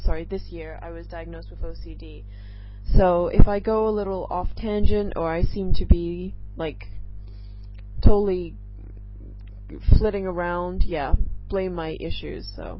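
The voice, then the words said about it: Mostly American-sounding mixed accent. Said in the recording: “I totally don't sound British. I know I don't have that cute English accent that, you know, I once did. I more sound American than anything else, but I'm kind of like a mishmash, so nobody can really place me”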